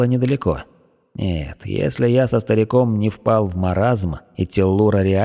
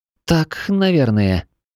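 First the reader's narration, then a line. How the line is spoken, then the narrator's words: Confused drawl. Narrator (Russian): растерянно протянула Аня, понимая, что сама загнала себя в тупик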